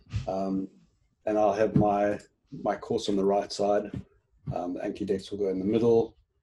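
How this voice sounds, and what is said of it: South African accent. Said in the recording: “So you obviously know South Africans if you picked up my accent.”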